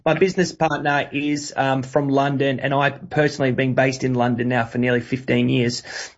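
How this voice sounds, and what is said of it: Australian accent. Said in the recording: “you can hear from my voice that I am Australian”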